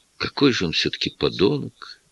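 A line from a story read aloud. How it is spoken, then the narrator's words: Quiet. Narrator (Russian): тихо сказала Лоис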